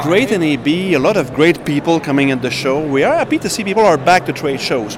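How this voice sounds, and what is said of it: Speaks with a distinctive foreign accent. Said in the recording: “We hear your accent. We know who you are immediately.”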